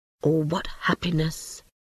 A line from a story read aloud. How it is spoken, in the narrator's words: whispered Toad to himself